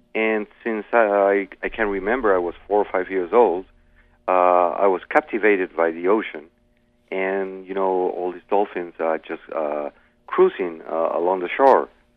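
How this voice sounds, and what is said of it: Thick Australian accent. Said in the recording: “your Australian accent is very thick”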